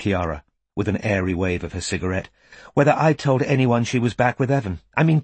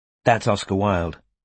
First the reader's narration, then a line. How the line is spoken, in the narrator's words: she added kindly